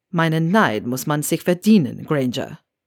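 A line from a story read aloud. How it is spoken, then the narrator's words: Low growling murmur. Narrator (German): Mit einem kleinen Knurren raunte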